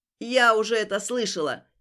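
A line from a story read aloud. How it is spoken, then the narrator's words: Nervous laugh, old woman. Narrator (Russian): нервно рассмеялась старушка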